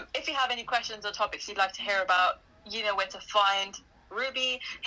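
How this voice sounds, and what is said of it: British accent. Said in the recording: “my accent ... British”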